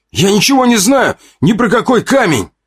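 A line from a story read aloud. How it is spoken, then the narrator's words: Sharp feigned shout. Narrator (Russian): резко выкрикнул, стараясь сыграть как можно более натурально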